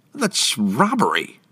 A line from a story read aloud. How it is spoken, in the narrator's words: Damien exclaimed